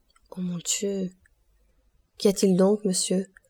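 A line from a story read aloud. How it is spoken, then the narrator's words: Timid question. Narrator (French): demanda timidement Dantès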